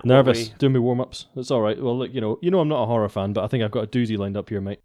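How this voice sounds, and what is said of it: Scottish accent. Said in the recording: “a new accent ... you've got a Scottish accent”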